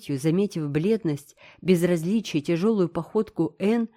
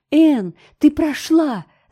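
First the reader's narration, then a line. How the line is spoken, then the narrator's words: Shout. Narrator (Russian): закричала она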